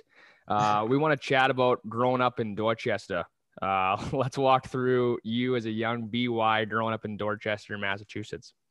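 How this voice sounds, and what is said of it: Put-on Boston accent. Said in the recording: “I'm going to do my Boston accent”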